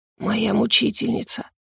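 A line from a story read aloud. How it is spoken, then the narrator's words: Moaning exhale. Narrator (Russian): Со стоном выдохнул он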